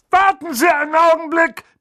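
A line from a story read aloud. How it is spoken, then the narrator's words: Bellowed toward fireplace. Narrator (German): brüllte er in Richtung Kamin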